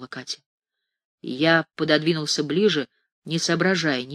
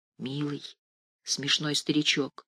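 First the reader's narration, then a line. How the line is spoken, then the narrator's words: Mumbling. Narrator (Russian): пробормотала Катя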